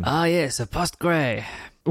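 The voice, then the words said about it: Bad put-on French accent. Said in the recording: “probably the worst French accent you will ever hear”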